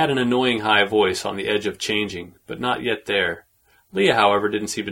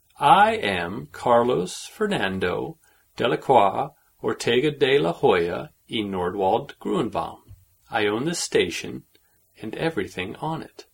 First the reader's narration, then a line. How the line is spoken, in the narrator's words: he said in a slow voice, as if talking to an idiot